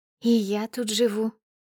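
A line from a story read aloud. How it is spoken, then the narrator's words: Sweet, shy voice. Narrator (Russian): отвечает милым голоском, как школьница на экзамене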